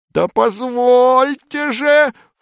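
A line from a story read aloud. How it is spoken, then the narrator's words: Loud yelling. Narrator (Russian): в полный голос вопит Выбегалла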